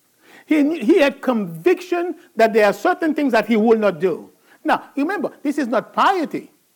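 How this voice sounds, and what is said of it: Haitian accent. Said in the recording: “I have an accent, right? It's not a Southern accent, by the way. He's not from Georgia or West Virginia. He's from Haiti.”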